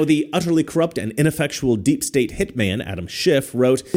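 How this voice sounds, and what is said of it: Usual voice. Nothing is said of it.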